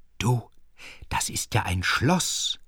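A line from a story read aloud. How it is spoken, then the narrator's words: Mother whispering. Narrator (German): flüsterte die Mutter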